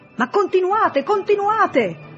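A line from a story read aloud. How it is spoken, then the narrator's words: Shouting again. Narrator (Italian): gridò ancora quella voce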